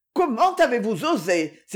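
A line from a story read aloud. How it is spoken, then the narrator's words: Indignant exclamation. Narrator (French): s'écria Aurora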